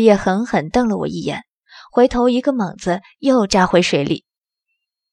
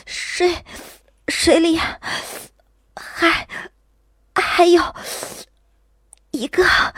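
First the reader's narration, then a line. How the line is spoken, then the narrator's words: Shivering, gritted teeth, halting cry. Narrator (Chinese): 我打着寒战，却依然咬牙切齿，很不连贯的叫道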